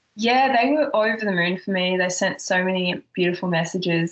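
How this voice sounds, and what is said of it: Australian accent. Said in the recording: “from already being Australian ... They love your accent.”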